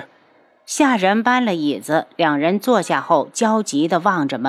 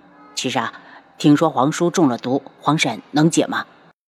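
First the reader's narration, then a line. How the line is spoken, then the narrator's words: Low voice. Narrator (Chinese): 为了缓解气氛，七皇子低声道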